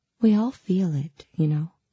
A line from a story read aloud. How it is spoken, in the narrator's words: she said softly